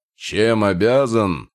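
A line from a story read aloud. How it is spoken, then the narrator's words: Barking. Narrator (Russian): рявкнул орк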